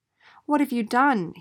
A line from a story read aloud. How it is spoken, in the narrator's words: he cried